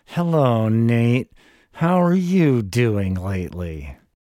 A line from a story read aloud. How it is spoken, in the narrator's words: they'd make polite small talk with me through gritted teeth